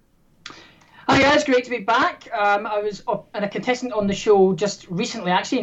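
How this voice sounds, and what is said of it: Scottish accent. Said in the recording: “as you can tell from my accent, I am from Scotland.”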